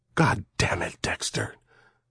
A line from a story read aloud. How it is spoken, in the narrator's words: she said softly